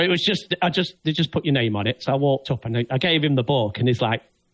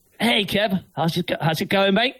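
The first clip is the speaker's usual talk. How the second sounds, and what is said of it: Put-on Australian accent. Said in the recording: “for this Australian accent.”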